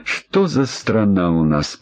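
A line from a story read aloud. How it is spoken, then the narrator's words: Grumbling. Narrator (Russian): проворчал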